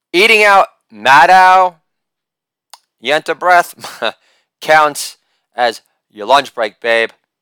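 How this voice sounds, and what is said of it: Impression of Chris Matthews. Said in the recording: “impersonation of Chris Matthews”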